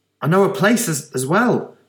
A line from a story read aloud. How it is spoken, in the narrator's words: she said excitedly